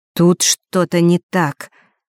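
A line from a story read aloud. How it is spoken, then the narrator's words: Slow, hesitant start. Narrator (Russian): медленно начал Фэш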